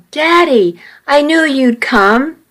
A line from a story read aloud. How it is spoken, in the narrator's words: When he saw Cliff, he yelled